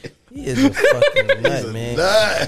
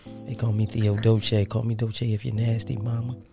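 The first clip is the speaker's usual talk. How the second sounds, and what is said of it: Soft voice. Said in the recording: “in my soft voice.”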